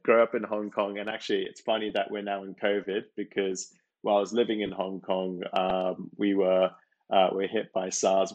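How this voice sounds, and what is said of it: Mixed international accent. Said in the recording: “as you can hear, my accent's a bit of a mutt”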